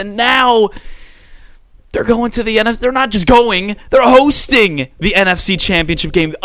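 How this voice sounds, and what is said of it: Screaming excitedly into the mic. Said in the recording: “I'm screaming into my mic right now”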